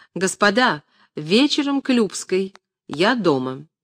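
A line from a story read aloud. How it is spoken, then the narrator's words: Loud man speaking. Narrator (Russian): видного мужчину громко сказал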